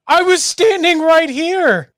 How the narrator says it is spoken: I look angrily at Chatwin, <laughs> and I go

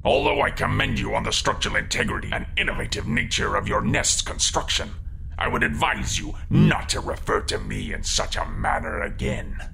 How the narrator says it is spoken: grumbled the grumbly crocodile

